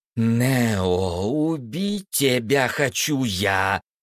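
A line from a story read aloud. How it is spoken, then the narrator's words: Hiss. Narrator (Russian): прошипела Марина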